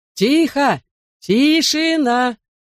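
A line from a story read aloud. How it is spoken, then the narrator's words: Shouted. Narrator (Russian): это крикнул мистер Уин Гилли, помощник мэра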